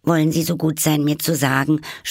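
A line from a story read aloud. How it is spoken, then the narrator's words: Slightly anxious. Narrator (German): sprach Alice etwas ängstlich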